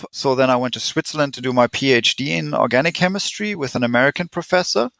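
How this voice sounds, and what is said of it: German accent with some American tinge. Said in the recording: “I'm German. Tried to hide my accent, didn't help... everyone made fun of my German accent... I finally developed a US accent in addition to my German”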